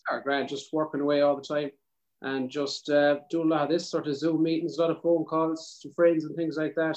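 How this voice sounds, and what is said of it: South Mayo Irish accent. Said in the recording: “you talk exactly like her ... A good South Mayo accent ... our bogger accents”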